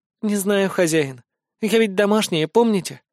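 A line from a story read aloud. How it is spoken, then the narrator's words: Timid, smiling. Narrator (Russian): Робко улыбнулась эльфийка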